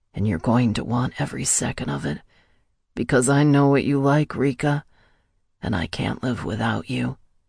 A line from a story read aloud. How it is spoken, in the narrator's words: continued to whisper in my ear